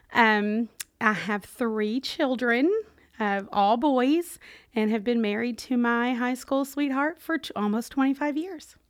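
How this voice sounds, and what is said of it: Kentucky Southern accent. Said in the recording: “the accent gives it away that I grew up in Kentucky”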